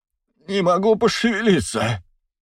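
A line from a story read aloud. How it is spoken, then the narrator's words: Moaning. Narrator (Russian): простонал банкир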